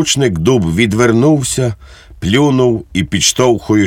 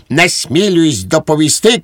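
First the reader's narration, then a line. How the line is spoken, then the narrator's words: Shouting after someone. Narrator (Ukrainian): крикнув йому вслід Швейк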